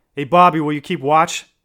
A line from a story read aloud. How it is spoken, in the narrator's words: one of the boys shouted